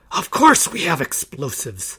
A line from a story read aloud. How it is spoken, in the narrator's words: the leader hissed